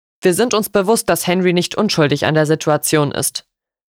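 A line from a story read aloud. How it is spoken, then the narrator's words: Sharp interruption. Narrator (German): unterbrach mich Lord Wyndham scharf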